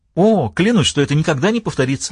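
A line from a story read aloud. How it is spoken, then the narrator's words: Cheerful young woman blurting. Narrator (Russian): весело выпалила девушка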